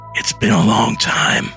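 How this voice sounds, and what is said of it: Raspy old man's voice. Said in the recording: “The man's raspy voice, enveloped in smoke, comes from thin, wrinkled lips.”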